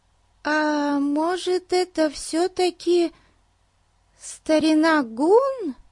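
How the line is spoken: Uncertain question. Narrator (Russian): Неуверенно спросила Бетси

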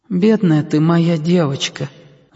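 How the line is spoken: Grandmother's sigh. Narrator (Russian): вздохнула бабушка

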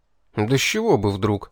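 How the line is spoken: Indignant outburst. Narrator (Russian): возмущенно вскинулся я

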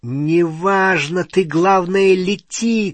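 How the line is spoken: Shouting over shoulder. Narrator (Russian): крикнул себе за спину Гарри

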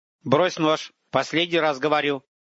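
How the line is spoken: Warning tone. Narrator (Russian): произнес Антипов, как ему хотелось надеяться, предупреждающим тоном

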